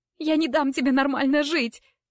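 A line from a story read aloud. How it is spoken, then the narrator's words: Hysterical shout. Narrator (Russian): в истерике крикнула Клэр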